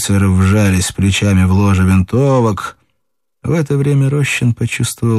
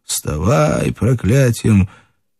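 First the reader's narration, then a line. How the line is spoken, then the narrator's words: Hoarse, off-key singing. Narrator (Russian): Чей-то хриплый голос нескладно затянул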